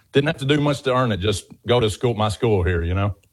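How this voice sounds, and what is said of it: Southern US accent. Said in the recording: “clearly a Southern gentleman. You have a beautiful accent”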